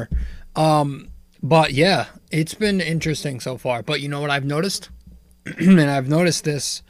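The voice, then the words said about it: Hoarse, fading voice. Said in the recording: “I'm fucking losing my voice out of nowhere.”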